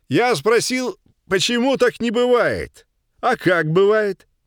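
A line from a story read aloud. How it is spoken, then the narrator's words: Loud smiling man's repetition. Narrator (Russian): громко повторил городской мужчина, заранее почему-то улыбаясь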